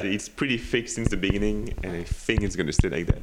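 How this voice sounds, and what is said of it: Thick non-native English accent. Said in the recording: “I don't know why my accent is so thick. I don't think it changed.”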